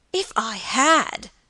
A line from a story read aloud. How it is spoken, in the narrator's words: cried George, in an outburst of grief and passion